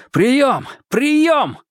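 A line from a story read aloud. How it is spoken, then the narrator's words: Shouting into radio. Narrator (Russian): закричал в нее Марк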